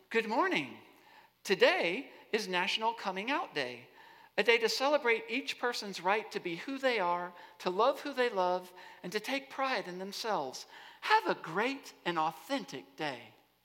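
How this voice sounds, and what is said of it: Robotic Alexa voice impression. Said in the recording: “I'm trying to get the robot voice right”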